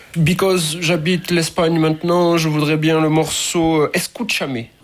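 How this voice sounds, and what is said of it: Put-on English accent in French. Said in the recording (French): “je vais reprendre mon accent anglais”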